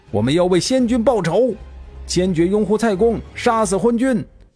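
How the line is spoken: Shout. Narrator (Chinese): 还有人喊

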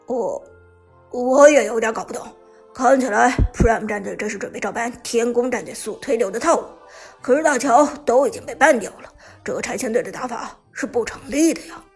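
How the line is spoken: Cough, then deep voice. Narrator (Chinese): 黑火咳嗽一声，沉声说道

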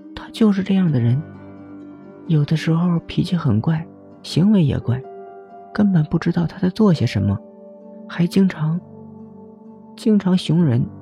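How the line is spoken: Quiet muttering. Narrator (Chinese): 温情小声嘀咕道

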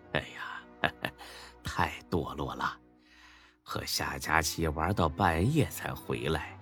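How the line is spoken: Laughing, mock scolding. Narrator (Chinese): 才哥和李欢相视一笑，骂了起来

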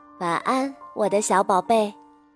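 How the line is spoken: Gentle mother. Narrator (Chinese): 妈妈 温柔地说

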